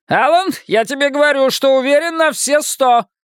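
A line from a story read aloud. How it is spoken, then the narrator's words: Shouting. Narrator (Russian): крикнул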